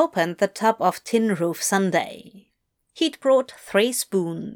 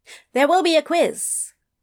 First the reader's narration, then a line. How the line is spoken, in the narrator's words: Adam piped up